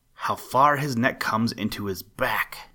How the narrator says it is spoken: exclaimed Solomon John

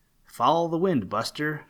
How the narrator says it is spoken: replied Sleepy

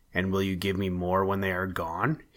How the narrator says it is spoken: he asked

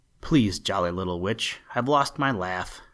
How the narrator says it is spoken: said Twinkling Feet

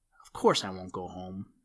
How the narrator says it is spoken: muttered Boxer to himself

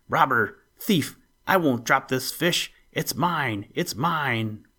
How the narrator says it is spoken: screaming harshly

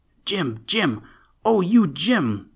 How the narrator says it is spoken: they yelled shrilly

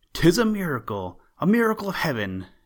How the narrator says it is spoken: exclaimed the men

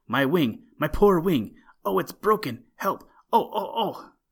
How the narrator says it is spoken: he cried

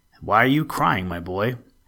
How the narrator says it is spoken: asked the saint

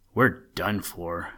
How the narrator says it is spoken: Skip groaned

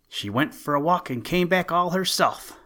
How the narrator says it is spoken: they cried

